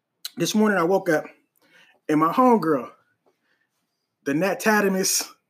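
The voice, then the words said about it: Strained, allergy-affected voice. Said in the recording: “excuse my voice, so my allergies is tearing me up.”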